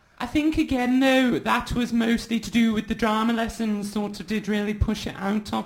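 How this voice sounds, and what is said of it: Slipping into a Manchester accent. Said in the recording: “I thought I was going into a bit of a Manchester accent then”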